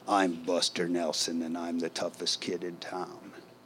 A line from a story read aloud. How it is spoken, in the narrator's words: A swaggering 4-year-old, used to repeat in his gravelly voice